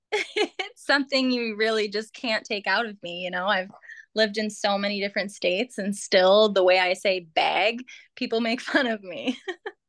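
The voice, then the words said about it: Minnesota accent. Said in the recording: “the way you say yeah ... I grew up in Minnesota ... Minnesota accent”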